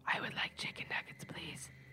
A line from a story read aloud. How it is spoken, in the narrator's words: a voice whisper